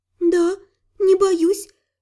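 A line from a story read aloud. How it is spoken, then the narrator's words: Smiling through tears. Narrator (Russian): улыбнулась сквозь слезы Сария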